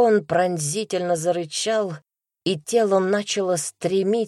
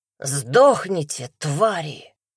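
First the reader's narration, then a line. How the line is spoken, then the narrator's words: Snarling. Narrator (Russian): зарычал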